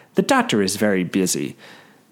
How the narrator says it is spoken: the woman says coldly

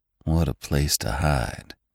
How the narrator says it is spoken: muttered Venters

